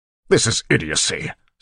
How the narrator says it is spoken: Straff snapped

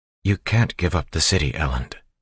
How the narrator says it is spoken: she said quietly

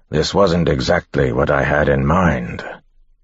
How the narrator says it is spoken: a voice growled

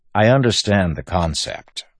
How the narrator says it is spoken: Wax said dryly

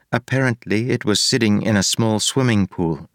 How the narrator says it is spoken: Steris said

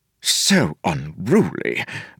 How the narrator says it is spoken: Vendel muttered

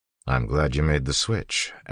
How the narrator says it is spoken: Elend said

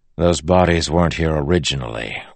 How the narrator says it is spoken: Wax said dryly

